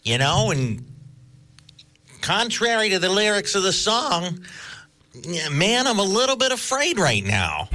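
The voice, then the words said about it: Bad Lenny Bruce impression. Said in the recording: “Lenny Bruce ... that really bad impression”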